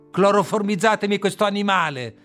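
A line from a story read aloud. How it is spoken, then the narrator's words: Furious shout. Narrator (Italian): grida inferocito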